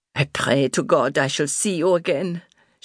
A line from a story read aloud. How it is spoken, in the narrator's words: she muttered in German